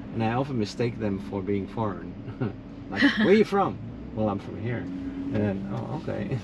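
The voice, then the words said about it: Slight Dutch accent in English. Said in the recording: “I'm from the Netherlands... you probably hear a little bit of an accent... I do, yeah. I was trying to figure it out. I'm like, I don't hear a lot of Florida people with that accent.”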